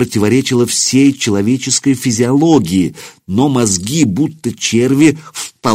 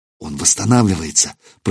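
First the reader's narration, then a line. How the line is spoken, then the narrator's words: Whisper. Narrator (Russian): прошептала Ольга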